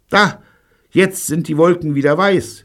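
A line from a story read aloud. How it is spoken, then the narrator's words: Call. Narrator (German): rief Jean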